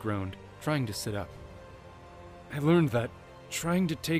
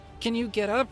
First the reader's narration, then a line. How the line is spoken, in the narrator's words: Navi asked urgently